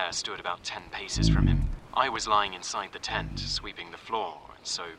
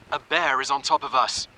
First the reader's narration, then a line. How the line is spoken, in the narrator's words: Strindberg cried out